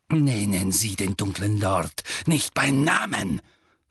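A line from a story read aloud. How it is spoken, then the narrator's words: Hissing. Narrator (German): fauchte Snape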